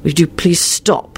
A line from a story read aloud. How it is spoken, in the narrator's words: he muttered